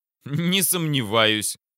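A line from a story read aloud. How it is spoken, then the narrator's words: Laughing. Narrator (Russian): рассмеялся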